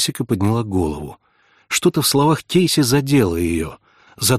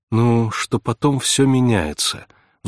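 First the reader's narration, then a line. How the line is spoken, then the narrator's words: Sighing. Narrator (Russian): вздохнула Джессика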